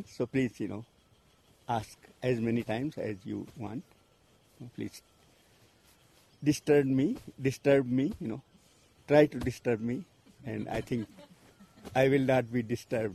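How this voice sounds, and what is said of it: Hindi-English accent. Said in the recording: “my, you know, Hindi accent, Hindi-English accent”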